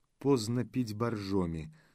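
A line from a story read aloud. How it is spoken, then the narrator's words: Calm male conclusion. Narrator (Russian): спокойно заключил бывший прокурор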